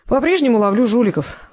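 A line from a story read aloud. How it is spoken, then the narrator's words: Sighing. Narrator (Russian): вздохнул Федор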